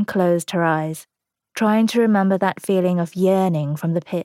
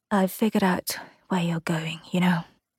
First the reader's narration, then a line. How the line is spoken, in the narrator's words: Aaron whispered